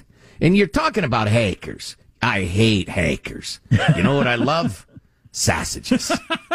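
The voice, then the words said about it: Put-on tough Chicago accent. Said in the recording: “your Chicago accent came out once when you were saying hackers ... My Chicago tough. See, there in Chicago, people got an accent.”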